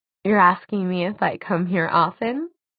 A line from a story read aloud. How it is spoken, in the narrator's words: She giggled, covering her mouth with her hand